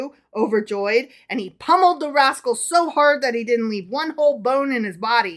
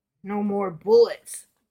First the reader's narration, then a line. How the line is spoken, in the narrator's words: grunted the bandit